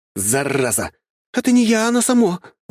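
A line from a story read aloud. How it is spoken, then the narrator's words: Frightened shout. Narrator (Russian): закричала Василиса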